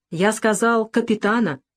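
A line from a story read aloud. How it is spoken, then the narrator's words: Angry repetition. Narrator (Russian): повторил он сердито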